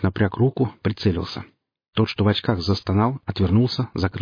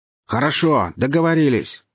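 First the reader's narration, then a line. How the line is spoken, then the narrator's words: Shouting again after pause. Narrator (Russian): после минутной паузы вновь орал Карабас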